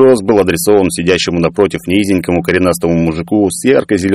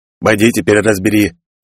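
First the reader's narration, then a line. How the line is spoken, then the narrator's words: Grumbled. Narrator (Russian): проворчал Сооб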